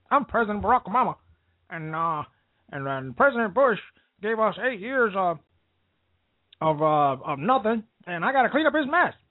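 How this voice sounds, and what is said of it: Impression of Barack Obama. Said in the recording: “I got to do his voice.”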